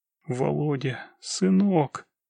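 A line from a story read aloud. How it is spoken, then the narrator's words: Soundless breath. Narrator (Russian): беззвучно выдохнула Анна Тимофеевна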